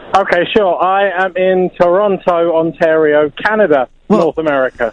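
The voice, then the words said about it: English accent. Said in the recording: “You've got an English accent.”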